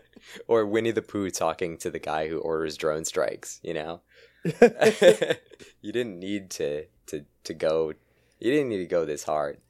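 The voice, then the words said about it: Strained, damaged voice. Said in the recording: “I don't think I can talk that long. Y'all could probably hear my voice is fucked up.”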